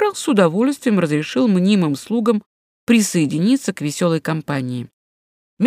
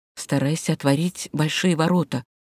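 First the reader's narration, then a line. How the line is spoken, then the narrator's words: Quick passing whisper. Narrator (Russian): шепнул он мимоходом Югоне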